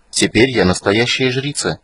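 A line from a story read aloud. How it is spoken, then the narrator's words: Quiet. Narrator (Russian): негромко завершила свой рассказ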